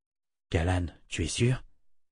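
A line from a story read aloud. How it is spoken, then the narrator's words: Breathy whisper. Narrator (French): souffla Richard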